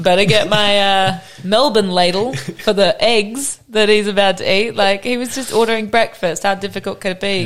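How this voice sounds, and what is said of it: British accent. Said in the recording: “You do have a British accent”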